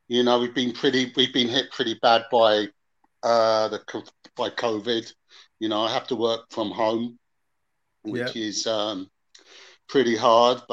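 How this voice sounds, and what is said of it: English accent. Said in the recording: “a bit of an English accent”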